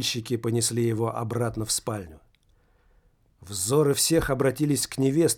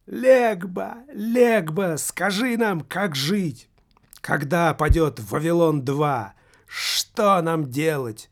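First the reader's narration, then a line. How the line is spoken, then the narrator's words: Drunk elderly woman shouting. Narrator (Russian): выкрикнула пьяным голосом пожилая негритянка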